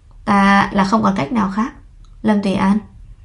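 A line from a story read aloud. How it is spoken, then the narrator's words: Sighing. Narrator (Vietnamese): Hoa Nhất Đường thở dài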